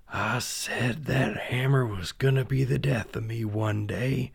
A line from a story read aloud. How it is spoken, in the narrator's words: whispered